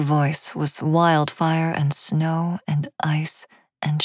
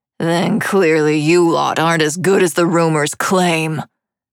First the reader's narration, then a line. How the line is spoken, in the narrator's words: sneered